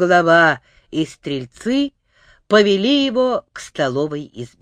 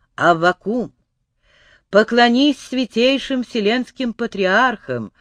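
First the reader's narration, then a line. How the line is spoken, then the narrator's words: Gentle kindly. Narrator (Russian): ласково сказал царь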